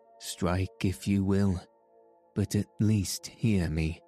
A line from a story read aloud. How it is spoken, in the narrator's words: Themistocles looked calmly at the admiral and said